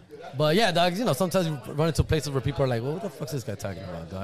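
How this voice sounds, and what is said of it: Thick non-British accent. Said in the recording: “I got a little bit of an accent... a little bit of a thick accent... I'm not exactly British here”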